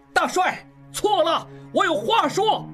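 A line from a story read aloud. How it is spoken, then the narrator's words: Loud, straining. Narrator (Chinese): 应季挣扎着大声说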